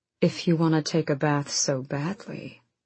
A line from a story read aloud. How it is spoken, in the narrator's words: Rowan murmured against her neck